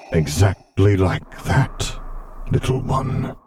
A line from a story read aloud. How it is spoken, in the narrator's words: Vader muttered encouragingly